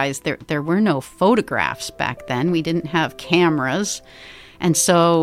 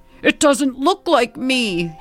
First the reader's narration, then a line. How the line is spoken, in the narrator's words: he roared